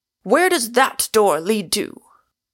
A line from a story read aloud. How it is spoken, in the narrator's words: cried out